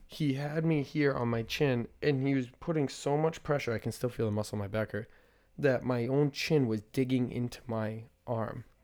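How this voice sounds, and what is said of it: Slightly raspy voice. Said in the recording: “you can still hear it a little bit. A little raspy.”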